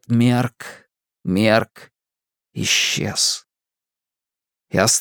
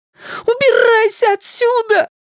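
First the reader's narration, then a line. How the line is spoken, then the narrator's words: Shriek. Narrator (Russian): взвизгнул Майк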